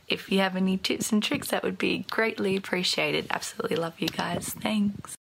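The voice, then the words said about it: Speaks with a noticeable accent. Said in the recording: “she's good with that accent... people with accents”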